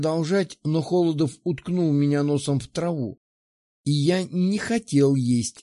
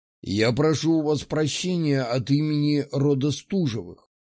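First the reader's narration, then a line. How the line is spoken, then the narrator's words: Plain. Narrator (Russian): сказал он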